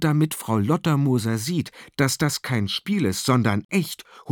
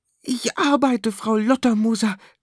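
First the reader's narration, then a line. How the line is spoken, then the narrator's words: Panting. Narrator (German): keucht Michi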